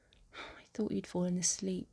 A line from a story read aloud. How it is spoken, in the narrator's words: she mutters